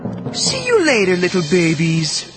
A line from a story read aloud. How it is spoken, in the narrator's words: she cooed